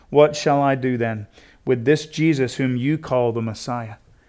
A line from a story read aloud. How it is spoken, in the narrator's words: Pilate asked